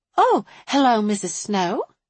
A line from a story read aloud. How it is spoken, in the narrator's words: she said brightly